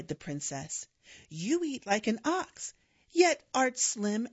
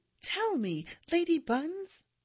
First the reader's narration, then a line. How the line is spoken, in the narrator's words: pleaded